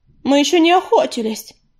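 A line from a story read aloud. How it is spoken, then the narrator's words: Reproachful exclamation. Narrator (Russian): укоризненно воскликнула какая-то королева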